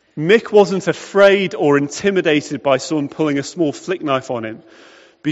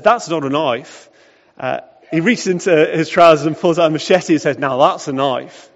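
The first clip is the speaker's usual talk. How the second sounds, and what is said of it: Attempted Australian accent. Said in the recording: “that was meant to be an Australian accent.”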